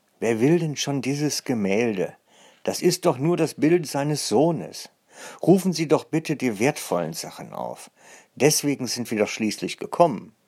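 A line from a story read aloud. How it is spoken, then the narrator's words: Distant call from behind. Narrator (German): Doch dann rief jemand weiter von hinten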